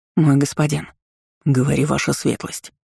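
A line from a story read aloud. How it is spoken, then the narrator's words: Guard's mutter. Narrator (Russian): буркнул стражник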